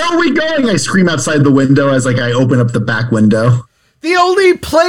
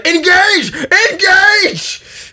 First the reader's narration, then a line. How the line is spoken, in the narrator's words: I scream in the front